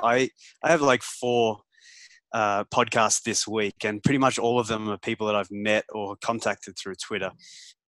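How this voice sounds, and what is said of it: Noticeable non-North American accent. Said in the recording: “you have an accent.”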